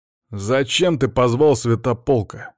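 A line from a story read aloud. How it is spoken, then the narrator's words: Menacing question. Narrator (Russian): грозным голосом спросил Димон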